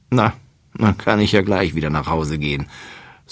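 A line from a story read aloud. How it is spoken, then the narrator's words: Sighing. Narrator (German): seufzt Gerstenkorn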